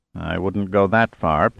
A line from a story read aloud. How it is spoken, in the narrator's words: Pitt muttered